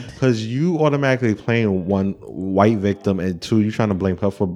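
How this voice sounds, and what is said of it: Usual voice. Nothing is said of it.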